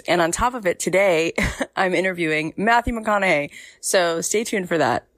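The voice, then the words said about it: Husky, hoarse voice from a cold. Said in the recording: “my voice is a little Kathleen Turner, I caught my daughter's cold ... sore throat”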